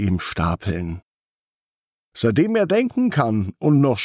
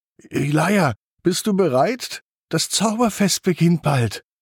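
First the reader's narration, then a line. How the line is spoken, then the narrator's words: Very excited call. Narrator (German): ruft Tommy ganz aufgeregt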